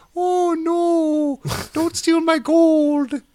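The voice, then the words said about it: Leprechaun character voice. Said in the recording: “That was my leprechaun impression.”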